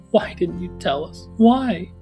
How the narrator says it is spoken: I heard her say in a quavering voice

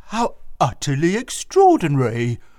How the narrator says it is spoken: exclaimed the owner

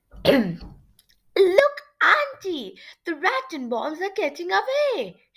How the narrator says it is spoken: she cried

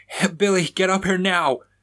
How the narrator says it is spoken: Raymond shouted

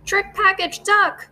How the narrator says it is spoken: cried

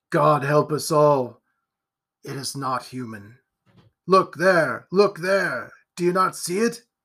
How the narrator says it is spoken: said in a low voice

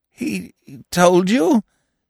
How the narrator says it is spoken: stammered

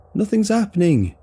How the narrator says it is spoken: he calls again

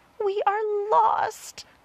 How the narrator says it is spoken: cried the ladybug

